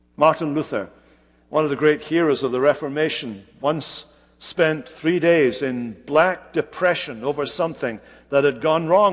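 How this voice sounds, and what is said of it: Strong, hard-to-interpret accent. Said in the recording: “my accent's sometimes hard to interpret”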